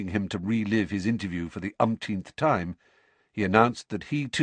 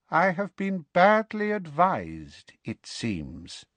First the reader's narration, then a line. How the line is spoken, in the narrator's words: said Harry, in a high, cold voice that pulsed with anger